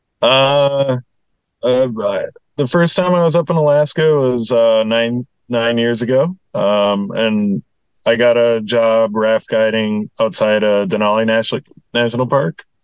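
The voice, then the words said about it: Slight regional accent. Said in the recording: “You have a bit of an accent.”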